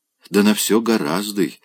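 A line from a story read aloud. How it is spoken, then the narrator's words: Gentle, affectionate. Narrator (Russian): ласково говорила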